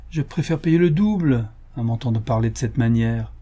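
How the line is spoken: Irritated. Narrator (French): dit d'un ton irrité

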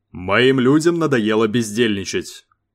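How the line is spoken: Deliberately raised voice. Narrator (Russian): вещал он нарочито повышенным голосом

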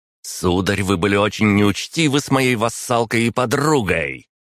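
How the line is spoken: Near growl, small woman. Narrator (Russian): Едва ли не прорычала миниатюрная баронесса

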